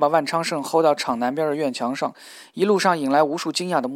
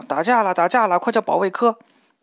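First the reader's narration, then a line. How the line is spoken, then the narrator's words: Shouting. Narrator (Chinese): 都只喊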